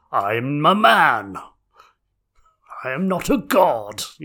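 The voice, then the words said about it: Imitates another person's voice. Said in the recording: “Doing his Thor voice.”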